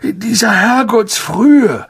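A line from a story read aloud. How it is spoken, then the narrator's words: Croaking. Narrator (German): krächzte Harry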